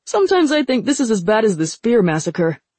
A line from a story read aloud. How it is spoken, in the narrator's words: Kitai said cheerfully